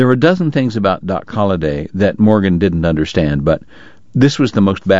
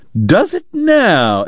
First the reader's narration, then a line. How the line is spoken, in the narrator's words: Eddie cried